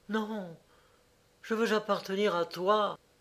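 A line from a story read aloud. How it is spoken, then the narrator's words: Deep sigh. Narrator (French): Il poussa un profond soupir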